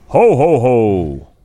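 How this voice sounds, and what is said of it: Imitated Joker laugh. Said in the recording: “Give me your best Joker laugh.”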